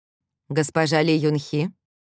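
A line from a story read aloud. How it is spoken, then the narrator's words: Surprisingly calm. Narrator (Russian): Его голос звучал на удивление спокойно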